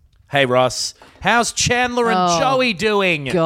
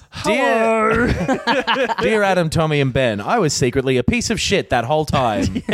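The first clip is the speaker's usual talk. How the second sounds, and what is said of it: Imitates a TV character's voice. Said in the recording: “Do the voice. Read it in the voice.”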